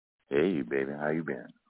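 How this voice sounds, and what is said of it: Deep, sexy voice. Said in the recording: “special, sexy, deep voice talking”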